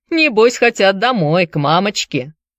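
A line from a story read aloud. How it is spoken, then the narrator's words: Laughing. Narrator (Russian): засмеялся Руди Шоу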